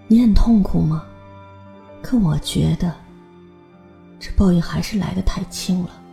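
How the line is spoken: Low, flat voice. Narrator (Chinese): 方敏面无表情的压低声音说

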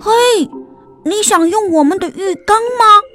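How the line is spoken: Shouting downward. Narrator (Chinese): 马努 冲着下面大喊

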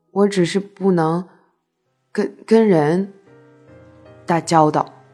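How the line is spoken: Slow explanation. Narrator (Chinese): 他慢慢跟我解释

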